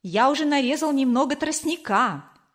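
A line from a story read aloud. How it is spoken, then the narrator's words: Joyful. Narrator (Russian): радостно сказал Кор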